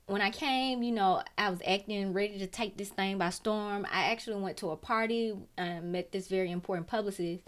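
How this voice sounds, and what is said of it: Strong regional accent. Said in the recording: “Accent ain't went nowhere.”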